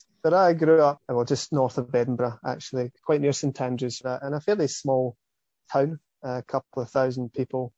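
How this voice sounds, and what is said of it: Scottish accent. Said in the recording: “I grew up in Scotland, as you can hear, my accent's definitely not from these parts of the world”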